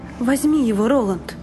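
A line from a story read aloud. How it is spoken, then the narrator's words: Breathless. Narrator (Russian): выдохнула Дженна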